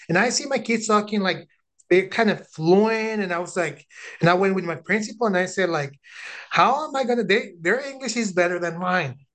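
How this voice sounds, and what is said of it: Non-native English accent. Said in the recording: “I have an accent, and I'm very proud of my accent”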